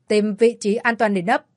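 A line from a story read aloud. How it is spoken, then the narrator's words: Roared command. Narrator (Vietnamese): Quách Sĩ Kiên lập tức quay người, gầm lên với mấy người sau lưng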